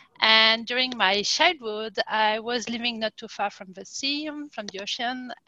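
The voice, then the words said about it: French accent. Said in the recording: “I'm French, as you can tell by my accent.”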